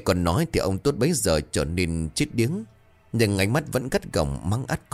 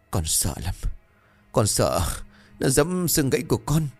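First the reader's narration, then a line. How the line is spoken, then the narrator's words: Moaning. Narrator (Vietnamese): Cường rên rỉ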